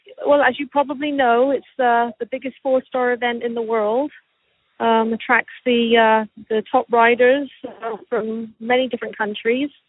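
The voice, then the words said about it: English accent with Canadian traces. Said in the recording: “your English accent cuts in and out ... a little bit of Canadian comes through”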